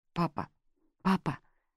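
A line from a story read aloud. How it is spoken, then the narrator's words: Muffled sobbing. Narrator (Russian): зарыдал Рори в грудь отцу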